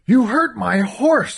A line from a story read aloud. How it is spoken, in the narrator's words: screamed